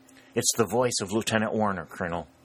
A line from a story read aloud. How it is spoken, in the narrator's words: whispered the sergeant